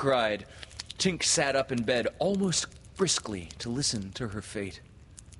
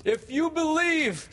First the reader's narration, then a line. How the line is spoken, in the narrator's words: he shouted to them